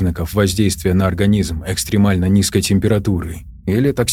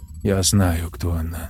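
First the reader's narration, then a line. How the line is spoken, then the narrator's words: Calm. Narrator (Russian): спокойно сказала Тори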